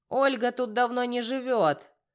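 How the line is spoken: Smoky-voiced woman's bark. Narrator (Russian): прокуренным голосом гаркнула женщина

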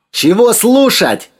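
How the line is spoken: Shouting, cut off. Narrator (Russian): заорал было Сергей

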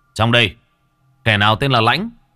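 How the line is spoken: Soldiers shouting. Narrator (Vietnamese): Đám lính ... quát to

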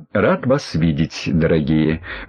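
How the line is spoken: Soft ingratiating voice. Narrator (Russian): Мягким и вкрадчивым голосом произнес он

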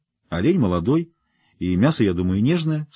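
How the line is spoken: Plain. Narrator (Russian): сказала Каролина

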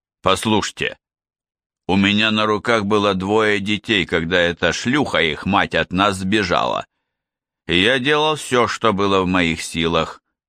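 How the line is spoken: Grumble. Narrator (Russian): проворчал Харрис

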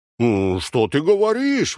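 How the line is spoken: Exclaimed. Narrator (Russian): воскликнул Дон Кихот

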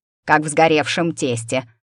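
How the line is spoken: Grumbling. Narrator (Russian): проворчала Урувига

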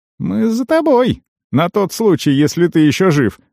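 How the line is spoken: Cheerful teenage explanation. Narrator (Russian): весело пояснил подросток

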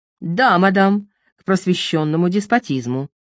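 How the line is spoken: Sharp reply. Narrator (Russian): резко ответил император

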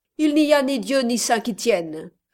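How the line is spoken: Sharp, piercing, curt. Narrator (French): répondit d'un ton sec et perçant, comme le claquement d'une crécelle, l'aimable millionnaire

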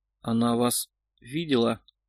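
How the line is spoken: Strained, barely audible. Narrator (Russian): еле выдавил Сергей

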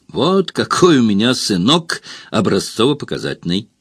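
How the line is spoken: Roaring laughter. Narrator (Russian): захохотал Гроднер

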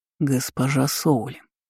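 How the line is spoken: Very quiet voice. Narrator (Russian): голос мага звучал очень тихо

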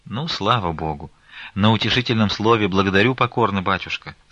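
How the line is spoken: Plain. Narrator (Russian): сказала мать Назарета

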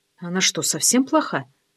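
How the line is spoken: Quiet question. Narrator (Russian): тихо спросила

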